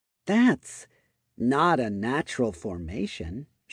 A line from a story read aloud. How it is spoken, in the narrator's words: she muttered